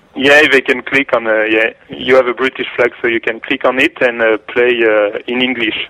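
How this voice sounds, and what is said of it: Strong French accent. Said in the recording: “I have a strong accent, so you can hear that I'm from Paris”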